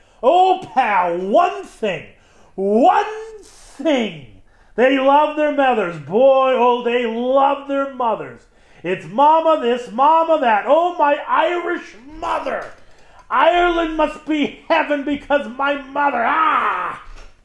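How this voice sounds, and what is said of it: Exaggerated, overly dramatic reading. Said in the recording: “That was my best impersonation of that, best reading of that. I wasn't really trying to impersonate, ... trying to give as much drama as I could.”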